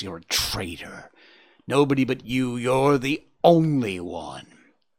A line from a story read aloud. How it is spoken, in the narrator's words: hissed the fox